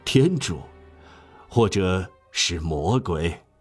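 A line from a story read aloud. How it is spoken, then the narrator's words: Smiling murmur. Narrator (Chinese): 本堂神父含笑摇着头，喃喃地说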